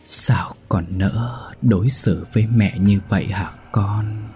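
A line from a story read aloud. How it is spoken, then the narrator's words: Reproachful whisper. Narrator (Vietnamese): bà cụ ... trách móc, nói thì thào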